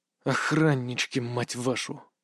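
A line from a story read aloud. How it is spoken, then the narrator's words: Muttered. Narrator (Russian): Пробормотал я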